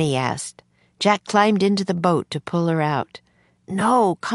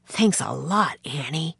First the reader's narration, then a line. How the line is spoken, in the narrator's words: Jack whispered